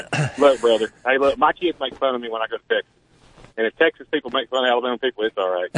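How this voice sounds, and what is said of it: Southern Alabama accent. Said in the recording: “I'm from Alabama. You can tell my accent.”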